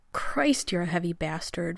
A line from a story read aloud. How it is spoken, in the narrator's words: Rodney gasped